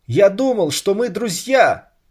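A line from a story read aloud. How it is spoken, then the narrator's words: Squeaky voice. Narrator (Russian): пропищал Саша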